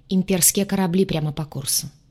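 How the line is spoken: Dry reply. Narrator (Russian): сухо отозвался капитан

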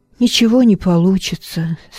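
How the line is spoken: Glum. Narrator (Russian): сказал я уныло

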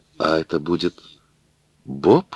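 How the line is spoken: Stammering. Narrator (Russian): сказала, запинаясь, Мэри

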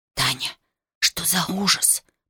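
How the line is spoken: Whisper. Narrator (Russian): прошептала Марина

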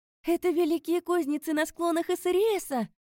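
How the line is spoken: Stunned exclamation. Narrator (Russian): Потрясенно воскликнула я

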